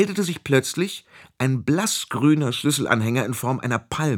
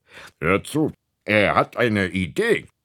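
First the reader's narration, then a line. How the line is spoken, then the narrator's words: Grumbling affirmation. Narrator (German): bekräftigte der Schlüssel daran brummend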